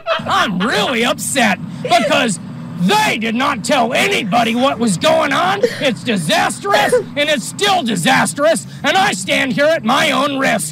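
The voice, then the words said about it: Childlike-sounding adult male voice. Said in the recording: “this guy's voice sounds like a kid pretending to be an adult.”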